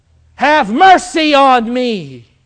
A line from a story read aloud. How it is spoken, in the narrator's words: he cried out